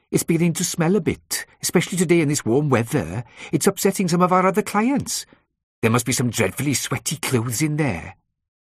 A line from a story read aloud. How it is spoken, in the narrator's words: she said in a broad Welsh accent